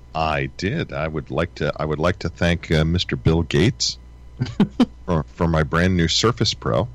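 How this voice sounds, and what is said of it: Deeper, radio-like voice. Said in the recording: “I was under the weather yesterday ... my voice sounds a little... I have that radio voice.”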